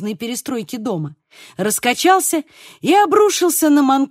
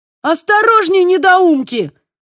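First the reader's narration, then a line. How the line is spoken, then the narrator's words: Yelling. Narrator (Russian): завопил Манкада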